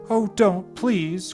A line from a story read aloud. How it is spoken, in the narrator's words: cried Irene